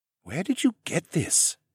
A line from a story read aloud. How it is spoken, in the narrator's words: asked in a hushed voice